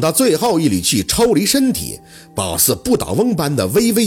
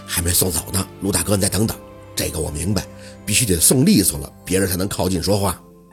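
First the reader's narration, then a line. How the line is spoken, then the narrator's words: Quiet voice. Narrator (Chinese): 小六小声的说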